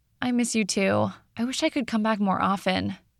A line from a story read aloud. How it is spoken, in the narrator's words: Sophia also sighed